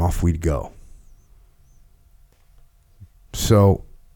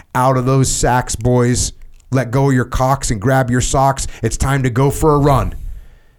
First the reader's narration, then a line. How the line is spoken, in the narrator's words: still loaded to the eyeballs from a wild night partying, shouting